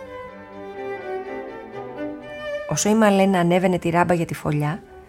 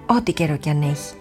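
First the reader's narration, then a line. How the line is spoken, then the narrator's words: Soft caw. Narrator (Greek): έκραξε απαλά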